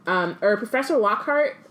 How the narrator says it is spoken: Hermione stammers

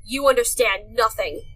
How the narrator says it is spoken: bellowed

